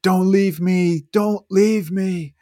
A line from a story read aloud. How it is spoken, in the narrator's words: screamed and screamed